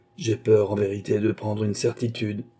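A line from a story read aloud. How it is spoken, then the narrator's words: Knight speaking sadly. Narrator (French): dit tristement le chevalier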